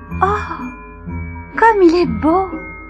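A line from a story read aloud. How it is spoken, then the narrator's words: Amazed exclamation. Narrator (French): s'écria Marie, émerveillée par le magnifique casse-noisette que son oncle Rudolf lui avait offert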